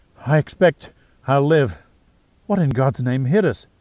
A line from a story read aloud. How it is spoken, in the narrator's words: She coughed for several seconds before gasping